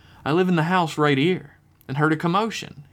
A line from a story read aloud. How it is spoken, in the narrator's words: he said in a warm, welcoming tone